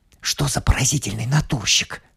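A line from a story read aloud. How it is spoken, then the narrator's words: Whispered. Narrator (Russian): шепнул Хьюи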